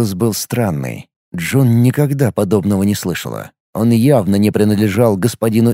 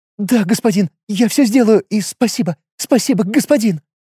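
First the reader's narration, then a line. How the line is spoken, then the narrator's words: Young goblin, frightened repeating. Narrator (Russian): Начала испуганно повторять молодая гоблинка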